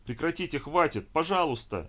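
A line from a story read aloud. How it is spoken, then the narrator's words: Shouting. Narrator (Russian): закричал я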